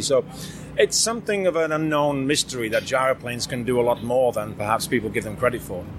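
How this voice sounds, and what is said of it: Non-American accent. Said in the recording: “as you can hear from my accent, I'm not an expert on all the U.S. licensing”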